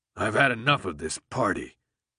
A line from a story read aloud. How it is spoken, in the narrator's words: Alec grumbled